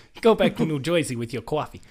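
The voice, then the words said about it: Exaggerated mock New Jersey accent. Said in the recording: “I'm just bastardizing their accent.”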